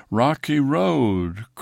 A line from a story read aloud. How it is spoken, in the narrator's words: croaked the toad